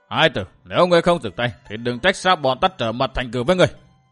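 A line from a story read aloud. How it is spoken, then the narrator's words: Loud shout. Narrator (Vietnamese): Công chúa quát lớn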